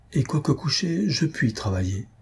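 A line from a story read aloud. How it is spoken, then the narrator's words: Murmur. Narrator (French): murmura Madame Larionov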